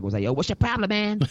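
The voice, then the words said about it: Imitates another person's voice. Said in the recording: “that was my Chris Jericho impression. I don't know how that sounded”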